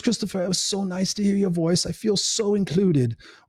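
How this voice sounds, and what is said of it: Imitated English accent. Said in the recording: “in her beautiful English accent ... I can't do her accent proper.”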